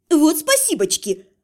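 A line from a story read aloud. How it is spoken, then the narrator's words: Snapping retort. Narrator (Russian): огрызнулась я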